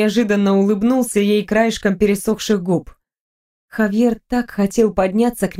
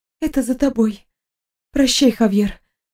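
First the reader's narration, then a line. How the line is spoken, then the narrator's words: Breathless exhale. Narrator (Russian): выдохнула она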